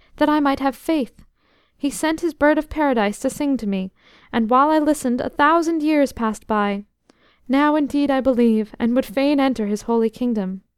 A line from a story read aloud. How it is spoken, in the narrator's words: he cried